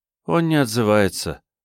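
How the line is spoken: Sad reply. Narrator (Russian): грустно ответила Диана

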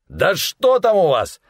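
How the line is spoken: Gang leader shouting. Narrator (Russian): закричал главарь шайки

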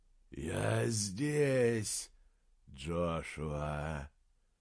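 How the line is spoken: Low hoarse windlike whisper. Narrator (Russian): ответил низкий хриплый шепот, точно эхо ветра

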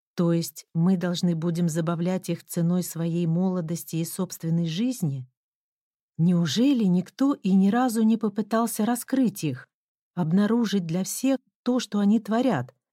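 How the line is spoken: Plain. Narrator (Russian): сказала я

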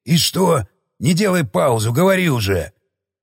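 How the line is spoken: Grumbling. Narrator (Russian): проворчал Самохин

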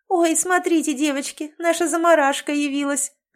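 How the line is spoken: Laughing. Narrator (Russian): засмеялась Линда

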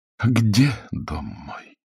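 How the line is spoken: Tired theatrical recitation. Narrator (Russian): Усталым театральным голосом продекламировала Елена

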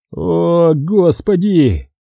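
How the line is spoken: Groaning. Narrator (Russian): простонал он

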